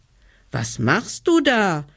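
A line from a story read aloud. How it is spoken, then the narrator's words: Small one calling upward. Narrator (German): rief der kleine Hebelmann hinauf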